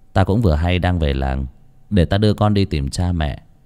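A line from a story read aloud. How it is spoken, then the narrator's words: Gentle, soothing. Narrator (Vietnamese): Vinh sững sờ hiểu ra, mà dỗ dành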